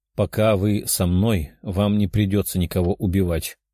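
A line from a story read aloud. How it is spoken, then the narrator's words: Calm voice. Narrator (Russian): спокойным голосом сказал парень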